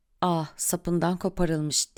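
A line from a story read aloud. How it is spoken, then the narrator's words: Murmuring. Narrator (Turkish): diye mırıldanıyordu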